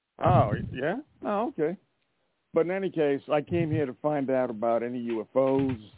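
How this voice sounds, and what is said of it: Put-on Southern American accent. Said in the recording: “I put on a good old Southern accent.”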